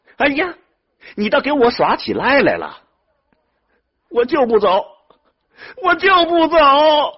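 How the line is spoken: Shouting. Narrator (Chinese): 徐志公也喊了起来

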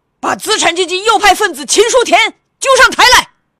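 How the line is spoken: Icy, shattering shout. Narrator (Chinese): 一个工作组组员以一种冰雪崩裂似的声音喊道

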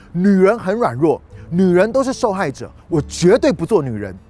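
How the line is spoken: Woman yelling. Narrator (Chinese): 这个女生，这个姐妹呢，就吼着说

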